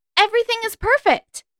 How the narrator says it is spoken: she said loudly, too loudly

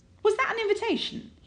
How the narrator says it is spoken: blurts out

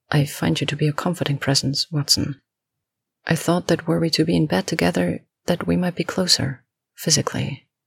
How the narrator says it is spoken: He trails off, swallowing the rest of the sentence

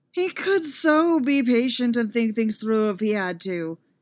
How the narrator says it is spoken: Anakin grumbled at a currently absent Obi-Wan

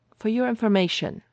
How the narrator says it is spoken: he replied rather testily

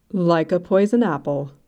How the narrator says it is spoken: she managed to confirm, in a perfectly solemn voice

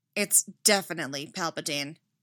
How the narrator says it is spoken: Anakin said grimly

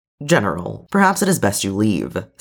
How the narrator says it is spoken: Steady says, carefully diplomatic, but his tone leaving no room for contradiction

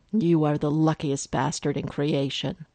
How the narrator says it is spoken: Lex growled in his ear

